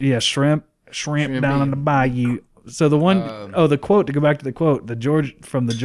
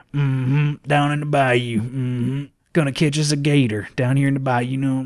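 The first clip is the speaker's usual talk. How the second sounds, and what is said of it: Put-on Louisiana bayou accent. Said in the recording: “the bayou one would be like”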